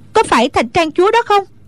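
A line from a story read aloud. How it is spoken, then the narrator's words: Cry out. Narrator (Vietnamese): Hoa Vạn Tử la lên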